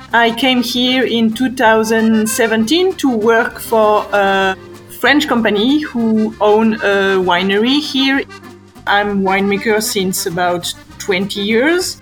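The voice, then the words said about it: Strong French accent. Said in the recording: “Originally from France ... As you can hear, I have a big accent.”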